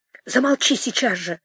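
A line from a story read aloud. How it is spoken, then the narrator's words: Angry whisper. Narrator (Russian): гневливым шепотом говорила Дуняша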